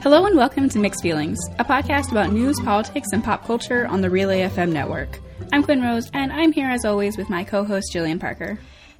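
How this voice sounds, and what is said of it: Soothing radio voice. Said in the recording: “her voice is so soothing ... she has the perfect voice for radio”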